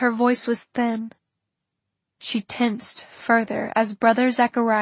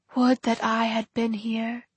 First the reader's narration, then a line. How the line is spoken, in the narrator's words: he said, his voice unexpectedly gentle